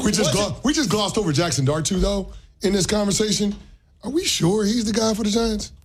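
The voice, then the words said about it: Hoarse voice. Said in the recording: “I'm hoarse anyway. My voice is a little shot.”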